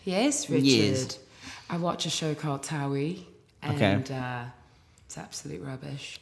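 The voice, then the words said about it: Put-on English accent. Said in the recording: “Can I be English? ... British version? ... Can I really be English? ... British ... British.”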